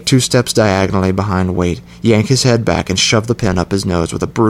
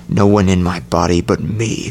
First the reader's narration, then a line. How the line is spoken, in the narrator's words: snarl